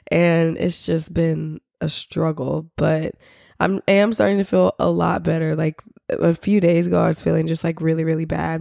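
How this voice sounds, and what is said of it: Congested, nasal, raspy voice. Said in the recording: “I literally sound like a 60-year-old man who needs oxygen to breathe and talk ... I'm just very, like, congested. So, like, I feel like I'm talking very nasally. My voice is very raspy”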